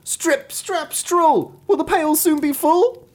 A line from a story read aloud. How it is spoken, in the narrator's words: he cried